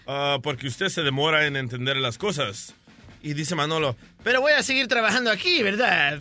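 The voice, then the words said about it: Poorly done Argentine accent. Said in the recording (Spanish): “¿y por qué hablas como argentino? ... ¿Y qué acento era ese? ... no hacer el acento bien de argentino”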